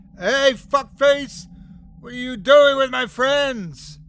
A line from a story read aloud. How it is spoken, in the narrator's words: I yelled